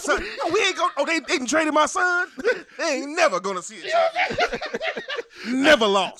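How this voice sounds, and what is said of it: Imitates another person's voice. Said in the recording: “This is my impression of LeVar Ball”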